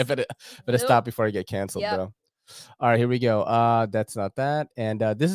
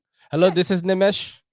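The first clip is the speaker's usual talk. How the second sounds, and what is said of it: Put-on Indian accent. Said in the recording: “I pretend to have an Indian accent”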